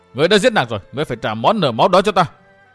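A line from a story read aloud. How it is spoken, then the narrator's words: Shouting. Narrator (Vietnamese): Chàng hét tiếp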